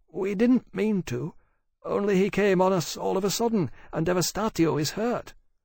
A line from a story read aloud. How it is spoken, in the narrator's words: Elsie said timidly